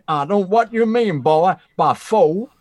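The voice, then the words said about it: Put-on Texan accent. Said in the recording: “your faux Texan accent ... It's pretty good.”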